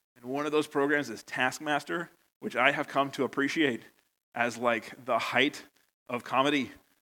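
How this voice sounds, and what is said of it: American accent. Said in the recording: “you probably noticed from my accent, I'm from America”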